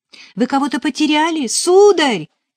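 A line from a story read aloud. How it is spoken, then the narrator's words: Shout. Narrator (Russian): крикнула Нелли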